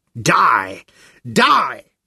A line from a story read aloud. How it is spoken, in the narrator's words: Her face was blotched with flaming spots of red, and her voice squawked as though she were being strangled